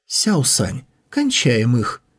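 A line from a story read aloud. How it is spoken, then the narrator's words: Giggling girl. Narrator (Russian): хихикнула девушка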